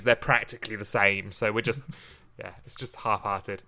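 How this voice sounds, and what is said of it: Mild Oxfordshire English accent. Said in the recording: “It's Oxfordshire-ish. It's that kind of half-hearted attempt at received pronunciation.”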